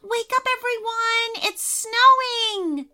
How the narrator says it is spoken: shrieked Sarah

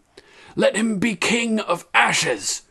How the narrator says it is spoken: Drogon shrieked

